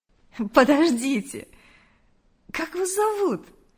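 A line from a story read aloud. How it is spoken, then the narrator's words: Almost laughing. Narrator (Russian): Чуть не рассмеялась Мария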